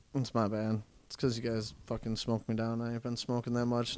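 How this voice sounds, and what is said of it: Quiet, flat monotone voice. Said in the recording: “You're probably going to need to talk way closer to the mic if you're not talking super loud. ... we can't hear you at all ... Now I'm all fucking monotone over here.”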